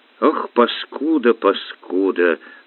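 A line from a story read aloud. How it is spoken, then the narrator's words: Whispering. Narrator (Russian): шептал он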